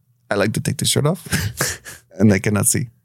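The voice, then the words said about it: Dutch accent impression of Verhoeven. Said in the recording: “if that's his accent ... I am Dutch”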